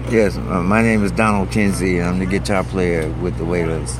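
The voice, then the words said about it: Smooth radio DJ voice. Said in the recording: “He's really a radio DJ. Can you hear that voice? A radio voice.”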